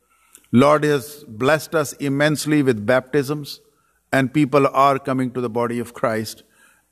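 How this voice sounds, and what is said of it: Speaker's own noticeable accent. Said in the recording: “I cannot possibly change my accent. You might have to shift your hearing senses with me a little bit.”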